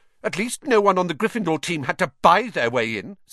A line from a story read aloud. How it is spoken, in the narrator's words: said Hermione sharply